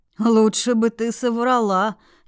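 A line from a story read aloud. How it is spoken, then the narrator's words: Near groan. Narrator (Russian): едва не застонал Эйтон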